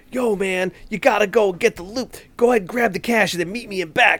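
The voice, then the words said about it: Put-on New York accent. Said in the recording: “very New York accent-y”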